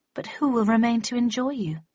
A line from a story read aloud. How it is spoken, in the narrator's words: She sighed dramatically, sobbed quietly for a moment or two